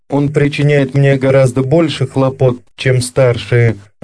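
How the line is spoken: Plain. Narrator (Russian): ответила она

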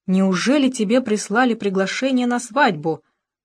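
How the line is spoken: Horrified exclamation. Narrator (Russian): в ужасе воскликнула она

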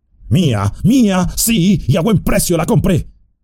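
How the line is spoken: Shouting while snatching. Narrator (Spanish): gritó, arrebatándole la tabaquera

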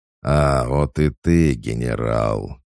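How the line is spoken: Booming growl. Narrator (Russian): прогремел его рычащий голос

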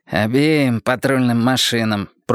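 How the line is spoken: Pimply guy grumbling. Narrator (Russian): пробурчал прыщавый

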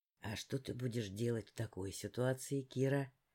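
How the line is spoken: Whisper in ear. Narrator (Russian): прошептал мне на ухо воин

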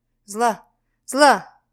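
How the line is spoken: Straining to shout. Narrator (Russian): пытаясь крикнуть

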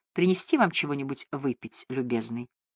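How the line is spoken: Quiet question, small nurse. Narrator (Russian): миниатюрная сестричка-шотландка и тихо спросила

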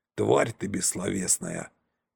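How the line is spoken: Sigh. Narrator (Russian): вздохнул

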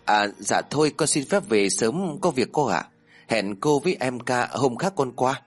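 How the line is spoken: Nervous, stammering. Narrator (Vietnamese): Toát cả mồ hôi lạnh sống lưng, Tùng ấp úng

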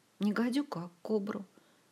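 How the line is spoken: Sad correction. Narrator (Russian): грустно поправила Ольга

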